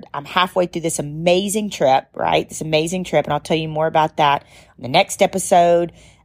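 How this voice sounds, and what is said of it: Tired-sounding voice. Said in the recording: “my voice is tired”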